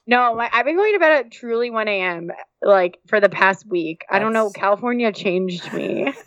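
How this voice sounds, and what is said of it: Vocal fry. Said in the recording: “do you hear the vocal fry in her voice?”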